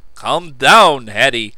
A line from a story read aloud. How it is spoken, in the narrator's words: I ordered more roughly than I intended